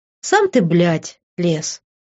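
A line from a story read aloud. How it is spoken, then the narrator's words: Snorting retort. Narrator (Russian): фыркнула я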